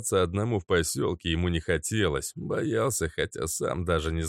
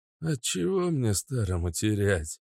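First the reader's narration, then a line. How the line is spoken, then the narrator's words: Old man's nervous chuckle. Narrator (Russian): Нервно хохотнул старик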